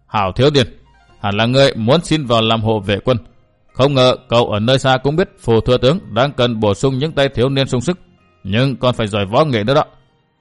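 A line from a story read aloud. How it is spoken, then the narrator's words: Old man chuckling. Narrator (Vietnamese): Ông lão bỗng bật cười khà khà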